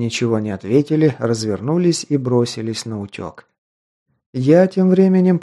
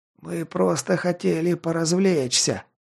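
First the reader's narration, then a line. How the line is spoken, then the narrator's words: Moan. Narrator (Russian): простонал тот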